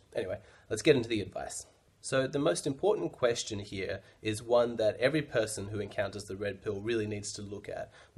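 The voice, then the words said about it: Slightly weird, strange-sounding voice. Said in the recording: “my voice. I'm sure it sounds a little bit weird ... I've got a bit of a cold ... my voice is a little bit strange”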